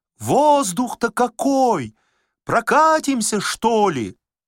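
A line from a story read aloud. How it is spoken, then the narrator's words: Shouting through windows. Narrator (Russian): Шофер кричал в окна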